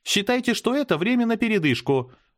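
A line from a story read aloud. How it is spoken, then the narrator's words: Cheerful announcement. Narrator (Russian): бодро объявила она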